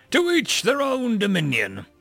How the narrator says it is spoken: I shouted as I stumbled my way out of the bar

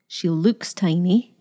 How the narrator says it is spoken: she told them firmly

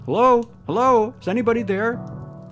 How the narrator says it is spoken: young Reggie's voice shouting

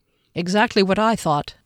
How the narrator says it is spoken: Derry said

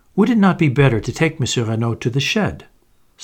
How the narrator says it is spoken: suggested Giraud smoothly

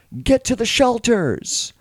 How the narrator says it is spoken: the mayor is yelling out to people

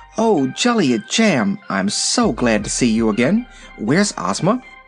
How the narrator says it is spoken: Dorothy ran up to her with evident pleasure and exclaimed

